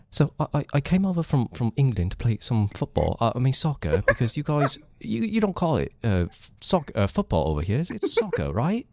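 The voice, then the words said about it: David Beckham impression, British accent. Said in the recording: “I used to do an incredible David Beckham impression ... a British one”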